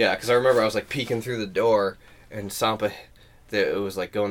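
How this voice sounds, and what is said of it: Usual voice. Nothing is said of it.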